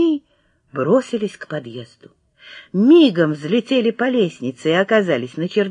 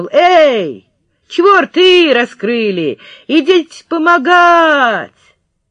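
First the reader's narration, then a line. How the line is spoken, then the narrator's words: Shout through cupped hand. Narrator (Russian): приложил руку ко рту и крикнул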